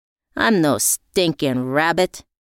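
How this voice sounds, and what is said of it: Tough gangster voice. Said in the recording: “in my best gangster voice.”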